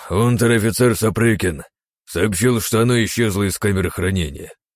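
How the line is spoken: Sighing. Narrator (Russian): вздохнул судья

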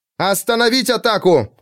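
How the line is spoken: Shout. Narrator (Russian): крикнула Биват

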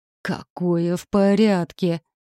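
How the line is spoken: Growling woman. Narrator (Russian): прорычала полная высокая докторша с круглыми очками на мясистом носу

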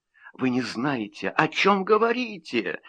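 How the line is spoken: Trembling voice. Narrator (Russian): сказала она дрожащим голосом

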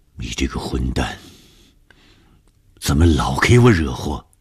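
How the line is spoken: Low growl. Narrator (Chinese): 红鱼低声的吼

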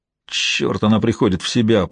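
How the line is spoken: Man grumbling. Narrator (Russian): проворчал этот мужчина

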